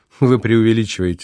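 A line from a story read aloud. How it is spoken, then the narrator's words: Laughing. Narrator (Russian): засмеялся Мартин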